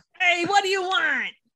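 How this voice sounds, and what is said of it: Put-on New Jersey accent. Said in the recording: “a 1,000-year-old genie with a Jersey accent”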